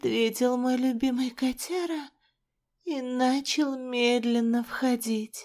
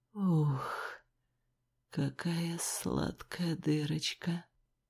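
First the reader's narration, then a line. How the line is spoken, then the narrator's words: Lewd whispered compliment. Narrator (Russian): прошептал мне пошлый комплимент мужчина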